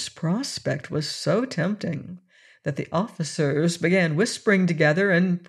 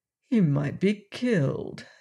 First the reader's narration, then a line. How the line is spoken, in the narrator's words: said Anne, looking tenderly